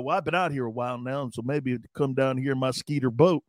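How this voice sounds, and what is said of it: Randy White impression, Texas drawl. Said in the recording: “Since when does Randy White have a Texas draw? ... How does Randy White have a Texas draw?”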